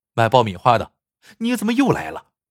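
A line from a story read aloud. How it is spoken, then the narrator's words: Angry. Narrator (Chinese): 他怒气冲冲的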